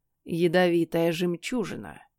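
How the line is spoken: Gloomy. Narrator (Russian): кивнул кот мрачно

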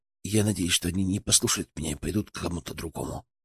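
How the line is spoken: Whisper. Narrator (Russian): прошептал он

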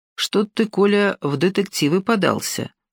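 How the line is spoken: Plain. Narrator (Russian): сказала она

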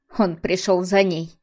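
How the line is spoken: Irritated snort. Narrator (Russian): Арина раздраженно хмыкнула

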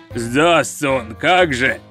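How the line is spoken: Booming rolling voice behind. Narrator (Russian): прогремел за спиной раскатистый голос

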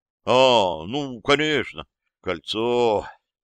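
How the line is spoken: Drawling. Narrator (Russian): протянул я

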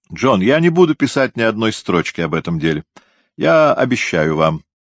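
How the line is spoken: Plain. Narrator (Russian): сказал Лоу

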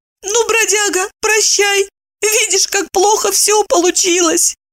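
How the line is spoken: Tearful squeak. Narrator (Russian): Обливаясь слезами, пропищала она

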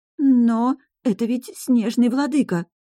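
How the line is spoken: Timid mousy stammering. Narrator (Russian): пролепетала девушка, заикаясь и напоминая мышь

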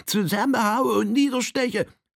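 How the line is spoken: Peculiar laughing. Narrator (German): lachte Droll in seiner eigenartigen Weise

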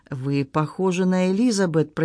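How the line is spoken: Sleepy monotone. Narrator (Russian): произнес он монотонным голосом спящего

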